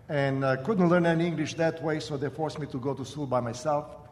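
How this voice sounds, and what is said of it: Croatian accent in English. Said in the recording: “My accent comes from the fact that I was born and raised in what is today called Croatia. And I was 15 years old when I came to America. So that's where my accent comes from.”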